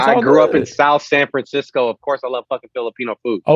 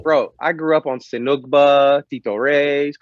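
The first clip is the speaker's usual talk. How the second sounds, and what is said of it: Put-on Filipino accent. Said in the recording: “I like how you say it with like, you know, with the Filipino accent.”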